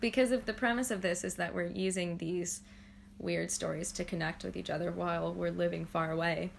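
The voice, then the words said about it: Heavy vocal fry, creaky voice. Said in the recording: “My vocal fry is so bad.”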